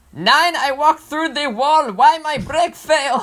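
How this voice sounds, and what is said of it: Put-on German accent. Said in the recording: “It's time for your German accent.”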